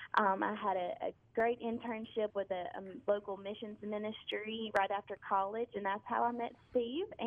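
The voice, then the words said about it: Noticeable regional accent. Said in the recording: “I love that accent. It just drives me nuts.”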